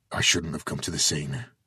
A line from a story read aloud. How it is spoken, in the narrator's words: he mumbled